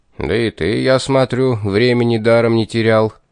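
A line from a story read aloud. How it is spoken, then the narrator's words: Good-natured rumble. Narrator (Russian): добродушно прогудел Герд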